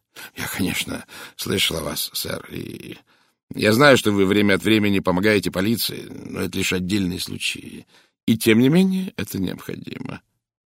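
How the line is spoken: Calm statement. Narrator (Russian): спокойно заявил Пуаро

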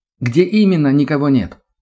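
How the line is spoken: Loud young voice asking. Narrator (Russian): громко спросил молодой голос

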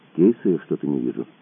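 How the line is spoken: Quiet flat statement. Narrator (Russian): тихо констатировал Кацуба

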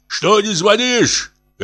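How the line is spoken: Elderly man shouting. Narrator (Russian): кричал пожилой

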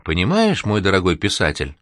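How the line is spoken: Caring, gentle voice. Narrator (Russian): продолжил он заботливым ласковым голосом

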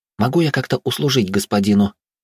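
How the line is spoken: Trembling question. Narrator (Russian): дрожащим голосом спросила Белла

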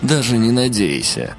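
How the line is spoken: Dismissive snort. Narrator (Russian): хмыкнул Серый

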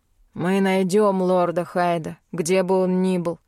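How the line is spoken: Through gritted teeth. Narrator (Russian): процедил тот, что был более разговорчив

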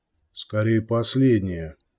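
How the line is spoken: Grumble. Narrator (Russian): проворчал лежащий рядом Кортес

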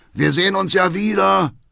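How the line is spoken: Father calling out. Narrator (German): ruft Vater Hackendal

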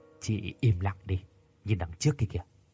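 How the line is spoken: Soft close whisper. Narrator (Vietnamese): Giọng chú nhỏ nhẹ bên tai của tôi

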